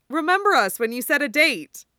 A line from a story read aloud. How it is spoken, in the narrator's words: Julie says cheerfully